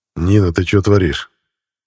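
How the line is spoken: Quiet. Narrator (Russian): тихо произнес

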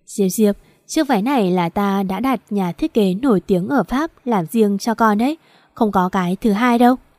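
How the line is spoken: Smiling. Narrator (Vietnamese): Chu Tử Lan mỉm cười

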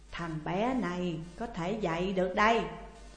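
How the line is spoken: Old man, smiling. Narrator (Vietnamese): Ông lão mỉm cười nói

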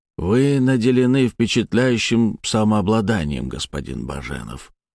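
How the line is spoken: Quiet, measured speech. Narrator (Russian): тихо проговорил психомант

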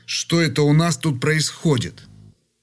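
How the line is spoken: Angry question. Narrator (Russian): как мог сердито спросил

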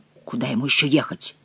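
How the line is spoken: Gloomy. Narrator (Russian): мрачно сказал Монсоро

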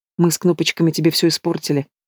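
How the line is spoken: Quiet, timid speech. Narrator (Russian): говорю тихо, не смея взглянуть

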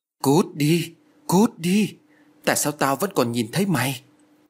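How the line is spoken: Trembling, loud terrified shouting. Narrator (Vietnamese): Lan run rẩy miệng la lớn

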